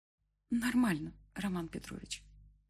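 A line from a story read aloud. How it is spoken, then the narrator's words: Weak voice. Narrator (Russian): ответила слабым голосом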